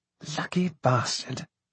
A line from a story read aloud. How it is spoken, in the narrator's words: murmured Charles